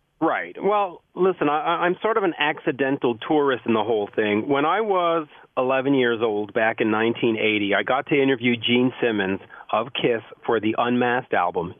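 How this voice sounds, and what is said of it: Canadian accent. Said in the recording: “I'm assuming you're obviously from Canada, because I can hear your lovely accent.”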